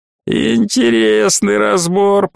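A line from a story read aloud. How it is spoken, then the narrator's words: Creaky voice. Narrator (Russian): проскрипел Носумен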